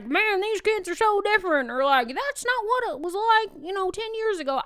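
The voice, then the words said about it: Briefly slips into put-on accent. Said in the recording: “I don't know why that accent came out”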